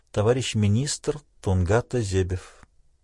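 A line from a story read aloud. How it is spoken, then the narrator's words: Quiet repetition. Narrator (Russian): тихо повторил за Селли Энн Питер фон Габера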